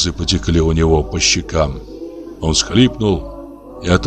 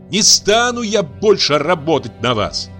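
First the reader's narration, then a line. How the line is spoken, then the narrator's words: Loud shout, then sobbing. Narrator (Russian): крикнула она громко и вдруг зарыдала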